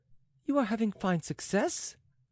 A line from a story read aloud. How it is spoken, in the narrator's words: she exclaimed